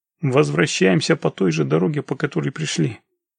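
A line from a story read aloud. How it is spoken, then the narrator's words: Quick. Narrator (Russian): быстро проговорил Володя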